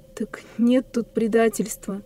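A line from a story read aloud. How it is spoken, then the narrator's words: Very gentle male voice. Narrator (Russian): сказал мужчина так мягко, как только мог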